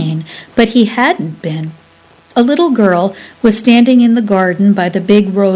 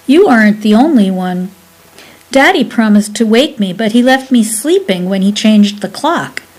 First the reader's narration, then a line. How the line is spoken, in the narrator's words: she replied firmly